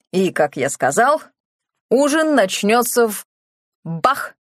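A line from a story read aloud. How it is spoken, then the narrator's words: Abruptly cut off. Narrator (Russian): Харас резко замолк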